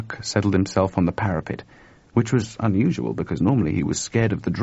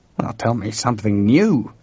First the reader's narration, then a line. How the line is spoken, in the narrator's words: George growled